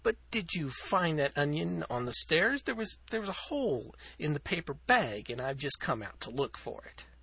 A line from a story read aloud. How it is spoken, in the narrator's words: said Hetty, as sweetly as her dilute acetic acid tones permitted